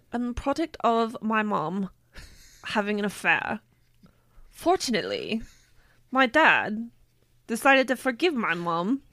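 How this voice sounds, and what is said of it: Put-on British accent. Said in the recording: “we need you to do an accent ... It's been so long since I've done a British accent. ... You're good so far.”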